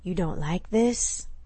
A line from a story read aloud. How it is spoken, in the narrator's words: whispered against her ear